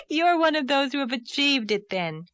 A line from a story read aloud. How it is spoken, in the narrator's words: laughed Anne